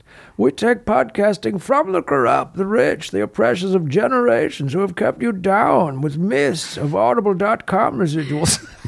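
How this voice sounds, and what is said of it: Bane villain character voice. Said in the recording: “reading a Bane accent.”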